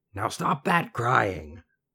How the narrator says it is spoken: a strange, croaky voice, a little humpbacked man

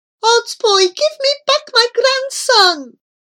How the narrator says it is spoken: With a broken-hearted voice, Grandfather Petamyengi cried out

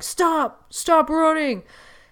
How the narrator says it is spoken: cops yelling fades away

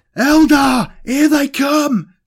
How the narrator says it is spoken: cried a different voice from out by the gate

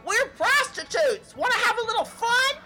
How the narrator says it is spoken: These two female parrots, they were always yelling

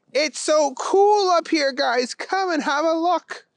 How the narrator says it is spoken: He yelled down

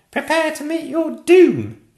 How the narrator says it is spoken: cried

